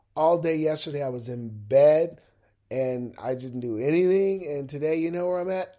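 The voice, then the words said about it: Congested voice from a cold. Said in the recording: “my voice sounds a little different, right? Yeah, because I'm dealing with a head cold.”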